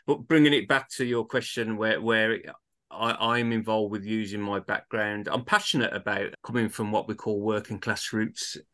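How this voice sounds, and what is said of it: Birmingham English accent. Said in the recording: “my accent is a true Birmingham accent ... they've got the Birmingham accent like myself”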